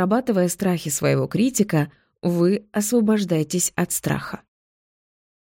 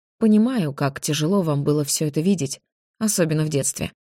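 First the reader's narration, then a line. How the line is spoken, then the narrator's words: Plain. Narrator (Russian): сказала я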